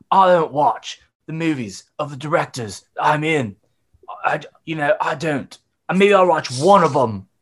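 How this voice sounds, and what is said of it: Bad put-on English accent. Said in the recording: “That's like Keanu doing a bad English accent ... That's like Keanu doing Jonathan Harker ... pretty close to Christian Bale”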